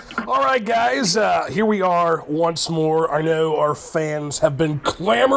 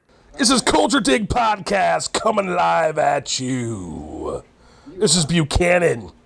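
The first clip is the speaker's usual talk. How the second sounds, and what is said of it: Pirate character voice. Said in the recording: “his pirate impression”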